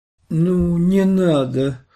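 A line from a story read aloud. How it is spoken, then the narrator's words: Hoarse, slurred. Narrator (Russian): Свон говорила хриплым, невнятным голосом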